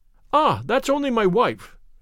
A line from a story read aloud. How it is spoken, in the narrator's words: cried the commissionaire